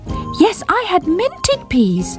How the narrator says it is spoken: repeated Squeak, determined not to be ignored

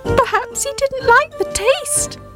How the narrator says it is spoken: Squeak shouted cheekily

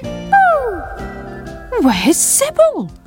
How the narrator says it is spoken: cried Sam

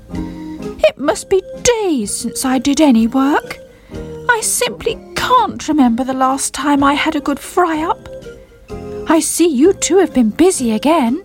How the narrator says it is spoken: he called out

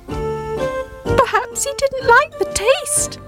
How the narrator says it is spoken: Squeak shouted cheekily

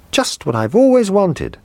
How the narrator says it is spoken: cried

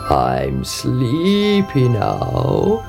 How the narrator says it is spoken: he croaked

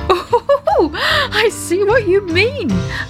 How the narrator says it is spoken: laughed Daddy Ted

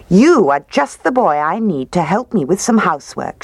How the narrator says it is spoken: said

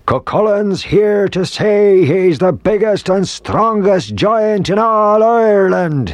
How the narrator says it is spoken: he roared

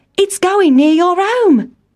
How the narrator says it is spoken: cried Town Mouse

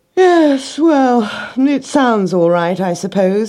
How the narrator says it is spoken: he yawned

